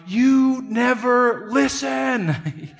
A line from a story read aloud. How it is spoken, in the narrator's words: he screams out